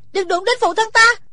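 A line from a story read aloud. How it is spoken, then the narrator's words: Desperate shout. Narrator (Vietnamese): Thủy Sinh hét lên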